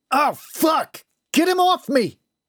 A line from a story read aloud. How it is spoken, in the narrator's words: Howard yelled